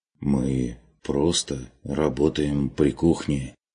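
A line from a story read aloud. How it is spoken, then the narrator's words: Uncertain explanation, man. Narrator (Russian): неуверенно пояснил мужчина, явно не зная, с чего начать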